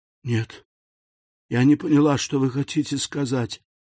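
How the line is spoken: Faint timid babble. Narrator (Russian): еле слышно пролепетала несчастная

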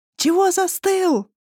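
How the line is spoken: Shouting over loud music. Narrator (Russian): прокричала она Киру в ухо, пробиваясь сквозь землетрясущие басы

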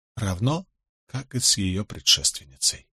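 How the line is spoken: Barely audible. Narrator (Russian): изрекла она и добавила едва слышно

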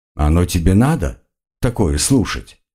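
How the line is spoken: Gentle question. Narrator (Russian): мягко спросил маг

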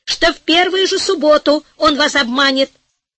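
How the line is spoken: Heated shouting. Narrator (Russian): в запальчивости закричал главный министр

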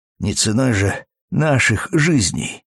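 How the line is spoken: Hoarse through clenched jaws. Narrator (Russian): едва размыкая сведенные челюсти, прохрипел он

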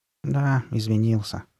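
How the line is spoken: Mumbling. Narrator (Russian): пробормотала Карли Бет

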